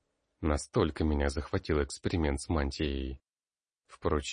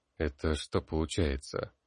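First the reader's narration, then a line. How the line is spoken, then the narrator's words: Muttered. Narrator (Russian): пробормотал я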